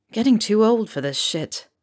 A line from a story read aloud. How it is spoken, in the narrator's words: Remus grumbled